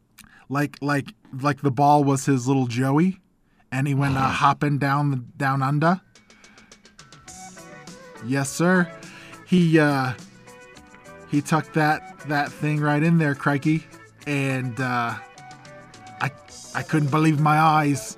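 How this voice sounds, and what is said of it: Put-on Australian accent. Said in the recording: “That's as much as I have for an Australian accent.”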